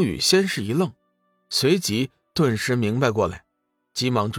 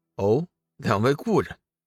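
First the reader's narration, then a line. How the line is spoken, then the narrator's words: Coy laugh. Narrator (Chinese): 美姬娇笑道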